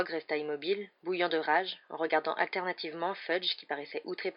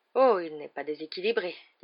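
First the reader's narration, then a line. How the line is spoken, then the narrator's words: Very calm tone. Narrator (French): dit Dumbledore d'un ton très calme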